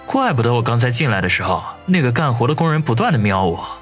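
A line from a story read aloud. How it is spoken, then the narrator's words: Exasperated muttering. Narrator (Chinese): 王宇一阵的无语，嘀咕道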